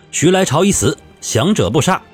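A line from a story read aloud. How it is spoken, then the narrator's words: Loud roar. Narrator (Chinese): 曹变蛟…高声吼道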